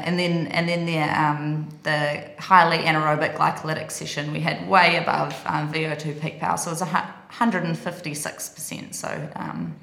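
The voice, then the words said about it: Speaks with a noticeable accent. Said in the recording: “accent”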